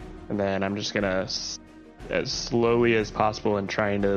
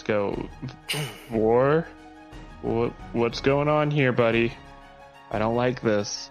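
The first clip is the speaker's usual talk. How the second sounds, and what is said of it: Shaky, frightened voice. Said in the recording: “in a really shakily voice”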